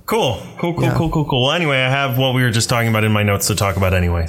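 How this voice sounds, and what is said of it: Deeper, rough voice from strain. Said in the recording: “my voice is a little more NPR, a little more morning radio, that's because I've been screaming for the last 4 days.”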